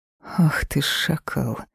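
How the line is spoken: Quiet hiss. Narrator (Russian): прошипела я тихо

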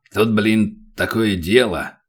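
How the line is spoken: Grumbling dwarf. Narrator (Russian): пробурчал гном

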